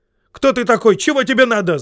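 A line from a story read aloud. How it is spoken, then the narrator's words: Yelling group. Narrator (Russian): завопили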